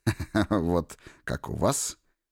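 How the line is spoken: Short chuckle. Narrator (Russian): хохотнул Троцкий

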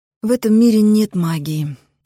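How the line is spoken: Sad reply. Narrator (Russian): печально отозвалась Грей

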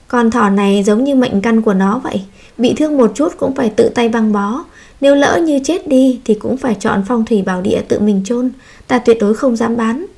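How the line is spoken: Sighing. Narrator (Vietnamese): Kỳ thị thở dài

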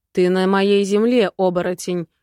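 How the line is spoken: Growling dragon. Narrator (Russian): прорычал мой дракон

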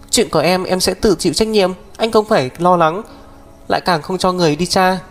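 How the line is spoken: Sobbing. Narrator (Vietnamese): Thiên Tuyết nức nở vài tiếng, nói với Mục Thiên Dương

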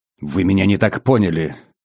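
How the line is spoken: Flustered hiss. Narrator (Russian): прошипел, явно деморализованный и сбитый с толку

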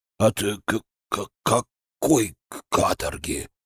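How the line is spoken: Stunned mutter. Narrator (Russian): ошарашенно пробормотал Сойкин

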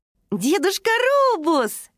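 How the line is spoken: Exclaimed in chorus. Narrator (Russian): хором воскликнули они

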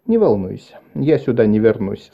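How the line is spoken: Calm. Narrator (Russian): спокойно сказал Вэлл

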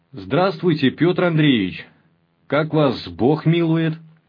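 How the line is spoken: Shout. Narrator (Russian): закричал

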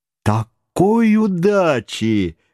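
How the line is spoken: Cheerful exclamation. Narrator (Russian): воскликнул весело Паганель

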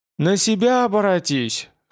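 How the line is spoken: Snorting. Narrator (Russian): хмыкнуло рентгеновское изображение

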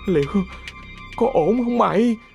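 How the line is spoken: Frightened stammer. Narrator (Vietnamese): nó không thể kiềm chế được sự sợ hãi, giọng lắp bắp

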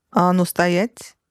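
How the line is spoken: Menacing question. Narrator (Russian): грозно поинтересовался

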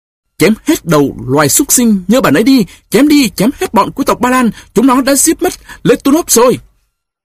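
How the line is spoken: Frenzied battle scream. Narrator (Vietnamese): Anh lao sâu vào lòng cơn xung sát, thét lên

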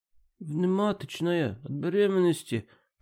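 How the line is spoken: Moaning through gritted teeth. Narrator (Russian): простонал сквозь зубы девушка

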